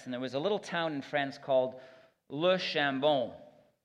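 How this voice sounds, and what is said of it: Put-on French accent on name. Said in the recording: “It's my best translation with French accent that I can develop.”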